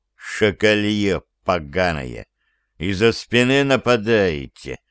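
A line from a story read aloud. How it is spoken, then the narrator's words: Hateful, through teeth. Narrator (Russian): С ненавистью процедил Аникин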